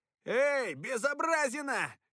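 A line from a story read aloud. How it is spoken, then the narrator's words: Shout. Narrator (Russian): крикнул Перси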